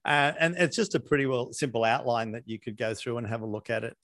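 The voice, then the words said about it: Australian accent. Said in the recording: “this crazy Aussie accent”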